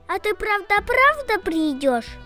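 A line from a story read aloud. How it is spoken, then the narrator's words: Happy squeal. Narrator (Russian): счастливо запищала она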